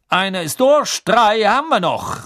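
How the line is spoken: Called out. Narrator (German): rief Bergmann

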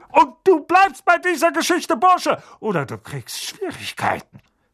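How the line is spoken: Hissing snarl. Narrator (German): fauchte Onkel Vernon

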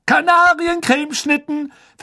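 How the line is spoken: Loud announcement. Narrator (German): verkündete Fred laut der aufgeregten Schülerschar

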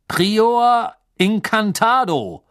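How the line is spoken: Thundering shout. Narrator (German): rief er mit donnernder Stimme

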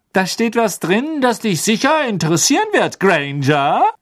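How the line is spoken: Called out. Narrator (German): rief Pansy

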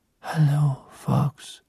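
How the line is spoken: Quiet. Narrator (German): sagte Harry leise

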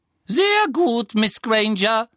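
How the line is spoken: Thin squeaky voice. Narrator (German): ertönte Professor Flitwicks quiekende, dünne Stimme

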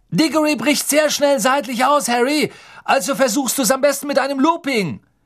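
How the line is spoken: Calling after someone. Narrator (German): Wood rief ihm nach

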